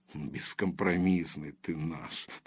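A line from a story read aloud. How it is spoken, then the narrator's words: Grumble. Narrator (Russian): проворчал Ромашин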